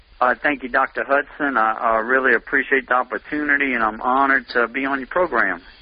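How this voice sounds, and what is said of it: Louisiana accent. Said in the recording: “I can tell by your accent that you're living in Thibodaux, Louisiana”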